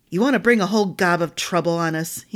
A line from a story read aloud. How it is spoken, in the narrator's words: growled